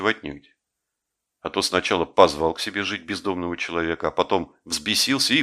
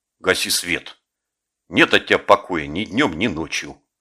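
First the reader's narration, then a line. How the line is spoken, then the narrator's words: Angry grumble. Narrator (Russian): Жеглов сердито буркнул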